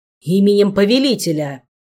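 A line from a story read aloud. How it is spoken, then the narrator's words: Barked command. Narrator (Russian): рявкнул Кайден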